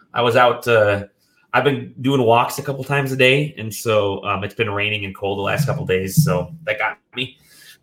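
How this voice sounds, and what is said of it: Nasal, cracking, sick-sounding voice. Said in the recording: “I am sick ... a little nasally today and my voice is cracking ... I'm extremely tired”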